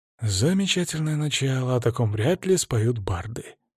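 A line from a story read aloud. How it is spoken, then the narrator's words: Whispered under breath. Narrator (Russian): прошептал я себе под нос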